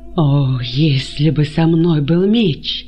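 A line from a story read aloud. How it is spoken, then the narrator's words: Moaning. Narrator (Russian): простонал он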